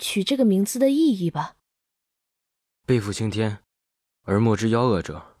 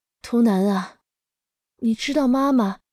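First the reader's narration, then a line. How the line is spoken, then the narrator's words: Soft, sighing mother. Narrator (Chinese): 妈妈叹了一口气，轻声说道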